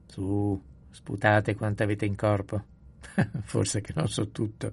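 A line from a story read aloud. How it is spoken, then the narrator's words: Good-natured laughing. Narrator (Italian): disse papà Ruol ridendo con bonomia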